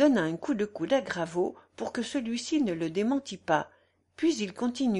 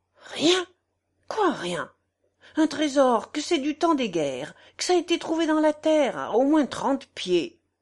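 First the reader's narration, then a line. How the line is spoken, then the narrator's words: Exclaimed. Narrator (French): s'écria Tavernier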